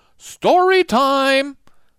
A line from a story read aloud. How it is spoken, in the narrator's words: a loud, jolly voice called out